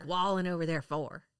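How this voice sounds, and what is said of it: Imitated Southern accent. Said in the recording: “That's how my mom sounds... accent”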